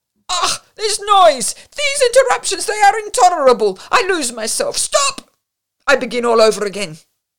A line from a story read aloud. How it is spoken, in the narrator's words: The noise they made disconcerted the singer, cried angrily